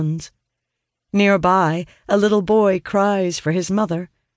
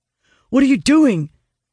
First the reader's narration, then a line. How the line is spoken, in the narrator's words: Owen asks urgently